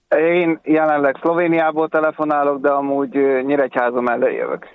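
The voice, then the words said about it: Slight accent. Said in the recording (Hungarian): “Ismerős a akcentusod....Valami kis akcentus. Valami van.”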